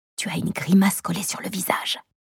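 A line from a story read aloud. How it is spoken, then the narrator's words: Irritated sigh. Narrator (French): Je souffle, irritée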